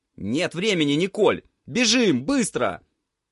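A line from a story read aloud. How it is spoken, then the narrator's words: Shout. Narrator (Russian): крикнул Витька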